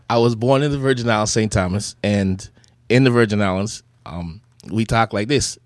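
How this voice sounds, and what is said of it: Virgin Islands patois accent. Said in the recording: “give them a little patois ... The accent is different than how things are. You know, just the enunciation on the vowels”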